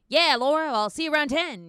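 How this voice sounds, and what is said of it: Nasally 1930s American accent, Daniel Craig. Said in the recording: “he sounded like this weird nasally Jersey Mike shit ... Like, it was a weird 1930s American accent”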